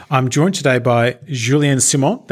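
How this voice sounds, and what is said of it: Put-on French accent. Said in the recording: “That's my best French accent that I can do”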